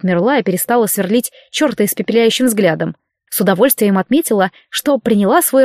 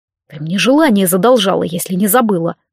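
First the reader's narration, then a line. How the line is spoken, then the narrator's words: Grumbling. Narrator (Russian): пробурчал ленивец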